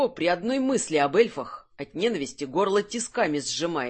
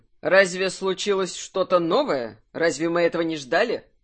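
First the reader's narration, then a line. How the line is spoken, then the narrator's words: Cold. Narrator (Russian): спросил Кирсан холодно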